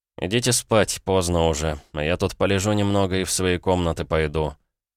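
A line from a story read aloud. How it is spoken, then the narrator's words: Sleepy. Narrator (Russian): сонно произнес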